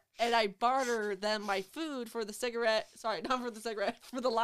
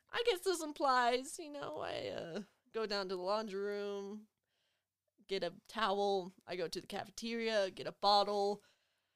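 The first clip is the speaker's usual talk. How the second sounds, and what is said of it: Speaks in a put-on accent. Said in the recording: “Why do I have an accent? Sorry.”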